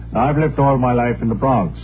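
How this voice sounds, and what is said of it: Put-on foreign accent. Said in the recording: “The accent is just to add a little class there.”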